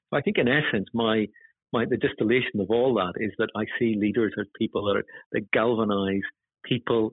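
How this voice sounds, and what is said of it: Northern Irish accent. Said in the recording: “my accent that I come from Northern Ireland”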